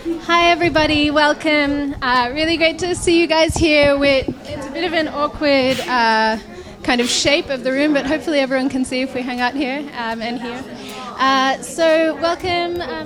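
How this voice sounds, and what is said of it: Australian accent. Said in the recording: “endearing Aussie accent”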